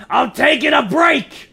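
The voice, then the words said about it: Shouted line in altered character voice. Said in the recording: “in a very different voice”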